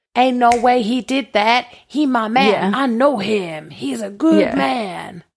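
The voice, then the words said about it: Put-on accent of unclear origin. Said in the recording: “What accent was that? ... It was a great accent ... that nobody will ever be able to tell where it was from.”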